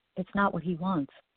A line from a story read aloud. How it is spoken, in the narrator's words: she said quietly